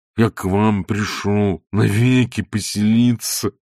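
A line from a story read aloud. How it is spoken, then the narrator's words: Lowing cow-like voice. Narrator (Russian): повторил Лоханкин коровьим голосом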